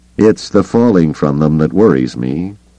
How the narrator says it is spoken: Carter said dryly

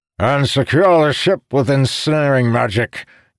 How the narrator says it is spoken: Calamir shouted

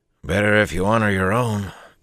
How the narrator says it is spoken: Bukama grumbled

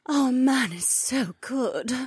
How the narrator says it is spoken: Becca murmured

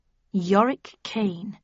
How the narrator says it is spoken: I murmured

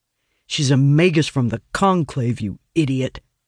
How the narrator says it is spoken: growls

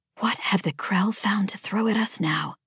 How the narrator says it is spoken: Judy murmured to herself

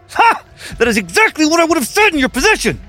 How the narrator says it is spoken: Duncan admitted through gritted teeth

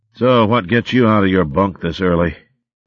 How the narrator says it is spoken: he snarled

